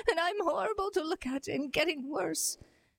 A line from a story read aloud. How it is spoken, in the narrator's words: sobbed the disguised queen